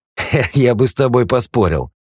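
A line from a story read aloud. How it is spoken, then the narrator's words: Laughing. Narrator (Russian): рассмеялся Юджин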